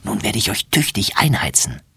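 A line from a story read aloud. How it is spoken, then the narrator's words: Whisper. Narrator (German): flüstert sie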